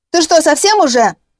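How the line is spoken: Yelling. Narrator (Russian): заорал

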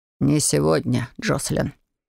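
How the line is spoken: Hoarse. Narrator (Russian): хрипло произнес

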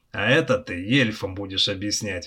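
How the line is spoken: Convict's snort. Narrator (Russian): хмыкнул каторжник

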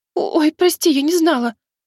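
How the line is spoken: Frightened squeak. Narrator (Russian): испуганно пискнула Джейна

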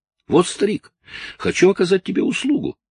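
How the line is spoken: Joyful announcement. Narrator (Russian): радостно сообщил

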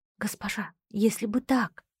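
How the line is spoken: Whisper. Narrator (Russian): прошептала

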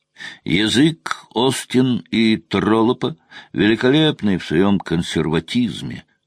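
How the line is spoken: Toothless mumble. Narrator (Russian): прошамкал Форд

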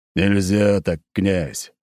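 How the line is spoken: Grumbled reply. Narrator (Russian): проворчал в ответ Николай

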